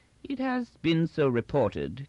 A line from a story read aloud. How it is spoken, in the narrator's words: continued Inchney coolly